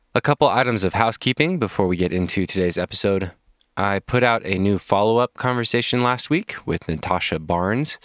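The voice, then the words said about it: Congested, stuffed-up voice. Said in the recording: “I'm still getting over a head cold, so if I sound different, it is because my face is still stuffed up a little bit”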